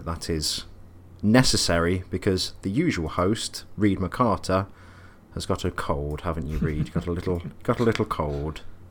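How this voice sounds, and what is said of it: Slightly affected, put-on host voice. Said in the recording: “You sound a bit... putting on a slightly affected voice to sound more presently, to sound more hostily”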